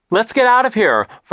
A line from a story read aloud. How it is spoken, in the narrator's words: Violet shouted over the noise of the thunder